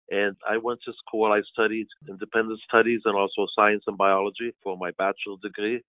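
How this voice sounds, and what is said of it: Foreign accent. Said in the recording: “as you can tell from my accent, is not from these parts. It's originally my family's of Romanian heritage”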